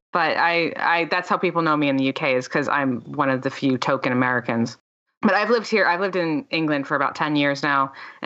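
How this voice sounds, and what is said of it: Mixed American accent with Canadian tinge. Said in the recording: “a more of a Yank accent ... it's a bastardized Yank accent ... I probably sound more Canadian between the English and the Canadian than I do American ... I don't sound like a Delawarean”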